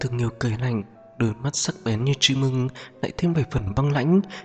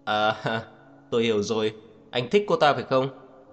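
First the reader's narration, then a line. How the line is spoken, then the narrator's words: Mocking laugh. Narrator (Vietnamese): ông ta cất tiếng cười mang theo ý mỉa mai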